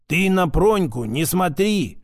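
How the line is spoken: Old man grumbling. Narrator (Russian): забурчал старик

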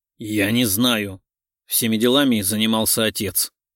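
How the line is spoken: Grumbling mutter. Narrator (Russian): пробурчал Панченко

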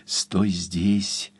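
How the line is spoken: Whisper. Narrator (Russian): прошептал

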